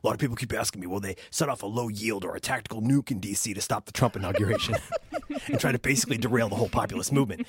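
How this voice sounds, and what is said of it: Alex Jones impression. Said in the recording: “Alex Jones ... I'm going to try and do this in the voice”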